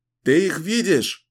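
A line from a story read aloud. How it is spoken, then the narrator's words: Shouting over wind. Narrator (Russian): прокричал он сквозь завывание ветра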